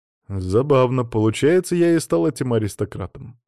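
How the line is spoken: Wry snort. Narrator (Russian): хмыкнул я

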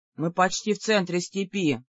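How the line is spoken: Grumbling. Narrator (Russian): проворчал Ур

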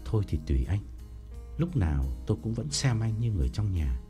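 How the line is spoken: Trembling old man. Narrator (Vietnamese): Ông run run bảo

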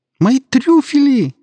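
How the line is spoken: Shrill cry. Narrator (Russian): раздался визгливый возглас

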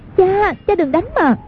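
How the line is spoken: Frightened cry. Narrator (Vietnamese): Hoàng Dung hoảng sợ kêu lên

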